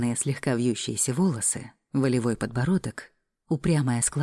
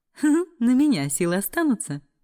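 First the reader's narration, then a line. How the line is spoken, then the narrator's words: Giggling. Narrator (Russian): хихикнула я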